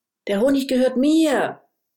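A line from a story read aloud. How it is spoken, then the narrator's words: Angry shout. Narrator (German): ruft Nene wütend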